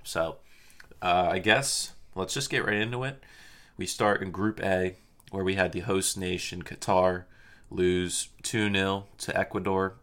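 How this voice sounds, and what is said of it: Slow, low-energy, sleepy voice. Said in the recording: “if you guys can tell from my voice, it's a little bit slow and down. Just woke up from like a deep nap ... I might be a little slow”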